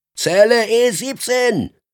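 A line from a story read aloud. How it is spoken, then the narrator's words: Voice calling out. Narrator (German): rief eine Stimme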